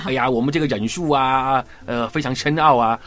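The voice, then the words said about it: Cantonese-accented Mandarin. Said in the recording (Chinese): “另外一个配音员就录广东话 ... 像老皮那个样子，广东话”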